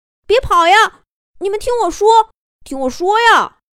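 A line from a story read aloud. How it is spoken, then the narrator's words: Shouting while chasing. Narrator (Chinese): 丹尼尔在后面紧追，边追边喊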